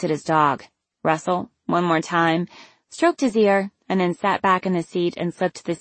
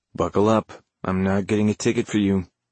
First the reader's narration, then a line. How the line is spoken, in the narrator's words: he said very calmly, very coolly